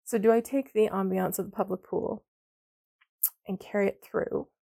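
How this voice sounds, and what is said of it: Strained, failing voice. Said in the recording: “I'm losing my voice. I was not very kind to it today.”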